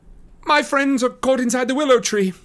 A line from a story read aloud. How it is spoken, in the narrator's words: cried Frodo breathlessly